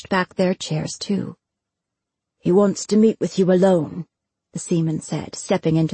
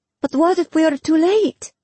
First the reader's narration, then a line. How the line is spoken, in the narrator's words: Jorani cried